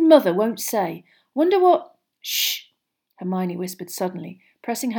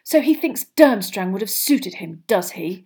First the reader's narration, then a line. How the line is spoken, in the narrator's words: She said angrily